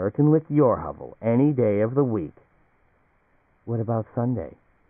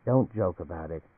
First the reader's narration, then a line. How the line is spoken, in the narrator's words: Anne said quietly